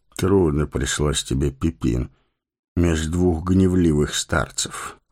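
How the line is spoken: Gentle, affectionate. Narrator (Russian): ласково проговорил он

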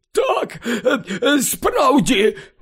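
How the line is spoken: Slurred, tipsy exclamation. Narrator (Ukrainian): вигукнув Слизоріг, у якого вже заплітався язик

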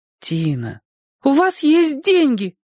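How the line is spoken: Exclaiming. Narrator (Russian): воскликнула Тина

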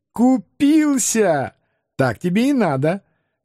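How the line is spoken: Small voice, ringing laughter. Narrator (Russian): знакомый голосок, заливисто рассмеявшись, объявил

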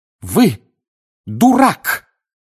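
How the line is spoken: Angry exclamation. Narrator (Russian): гневно воскликнула профессор МакГонагал

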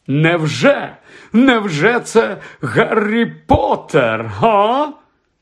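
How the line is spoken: Sudden shout. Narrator (Ukrainian): зненацька закричав

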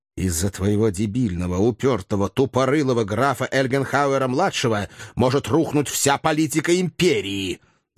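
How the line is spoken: Angry hiss. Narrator (Russian): Злобно прошипел краснорукавный тип

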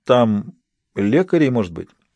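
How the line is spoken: Uncertain question. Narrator (Russian): неуверенно спросил

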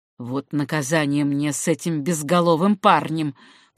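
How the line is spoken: Muttered grumble to himself. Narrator (Russian): проворчал про себя Элисла

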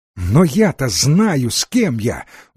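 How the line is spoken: Exclamation. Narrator (Russian): воскликнул Марк

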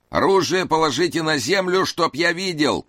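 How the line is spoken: Shout from above. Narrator (Russian): крикнули сверху

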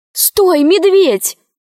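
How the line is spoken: Shouting. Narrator (Russian): крикнула Алиса

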